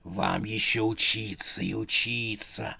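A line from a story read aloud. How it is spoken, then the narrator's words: Whisper. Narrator (Russian): шептала мать смертей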